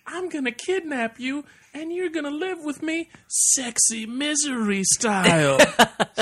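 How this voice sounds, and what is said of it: Imitates another person's voice. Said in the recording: “this is another voice you can do. You can do Cameron Diaz ... great Cameron Diaz impression”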